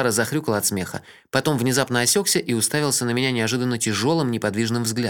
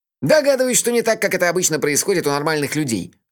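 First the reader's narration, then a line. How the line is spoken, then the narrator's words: Bursting into laughter. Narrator (Russian): расхохотался он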